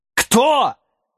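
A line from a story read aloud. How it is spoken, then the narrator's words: Growling. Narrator (Russian): зарычав, подлетел Сэм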